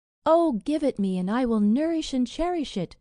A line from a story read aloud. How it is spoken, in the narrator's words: cried the princess